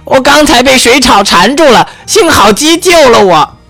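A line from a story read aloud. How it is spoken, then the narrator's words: Loud. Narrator (Chinese): 杰西卡大声地说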